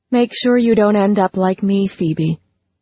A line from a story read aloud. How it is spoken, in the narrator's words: her mother said in a hollow voice